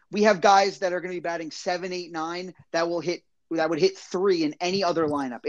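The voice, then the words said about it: Giddy, excited delivery. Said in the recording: “You sound like a kid on Christmas.”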